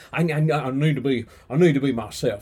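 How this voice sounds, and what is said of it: Elvis Presley impression. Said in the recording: “I can even do an Elvis impersonation. ... That was pretty irresponsible and atrocious.”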